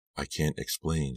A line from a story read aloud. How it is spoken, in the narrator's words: she whispered